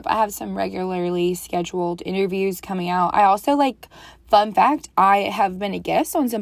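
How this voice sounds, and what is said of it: Strained, nearly lost voice. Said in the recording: “I lost my voice ... I also lost my voice”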